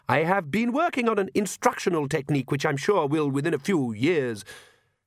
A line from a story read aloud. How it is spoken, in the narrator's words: he added brightly